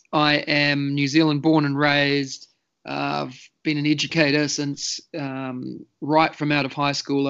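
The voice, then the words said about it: New Zealand accent. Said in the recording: “I'm from New Zealand, as you can maybe tell from the accent.”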